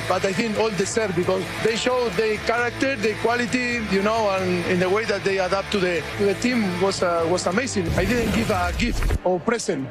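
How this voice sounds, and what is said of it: Fast speech, rough foreign accent. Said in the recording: “It wasn't his best English ... He talks fast with the accent. It is a little rough.”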